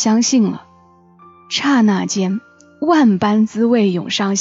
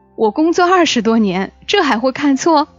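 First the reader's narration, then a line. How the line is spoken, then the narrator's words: Laughing. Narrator (Chinese): 医生笑了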